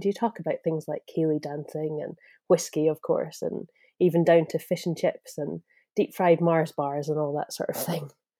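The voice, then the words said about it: Strong Scottish accent. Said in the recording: “We're very proud to be Scottish... And the accent. I love your accent... I feel like yours is pretty strong.”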